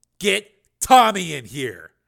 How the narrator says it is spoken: he snapped

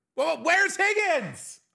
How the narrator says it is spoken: I shouted as we burst through the door

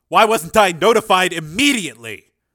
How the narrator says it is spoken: snapped Cord

